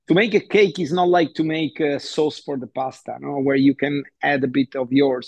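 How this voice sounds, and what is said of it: Italian accent. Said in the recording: “two Italians talking about this because apart from the accent”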